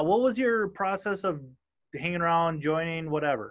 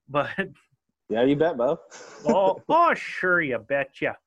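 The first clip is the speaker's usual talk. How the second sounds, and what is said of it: Exaggerated northern US accent. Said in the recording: “my northern accent”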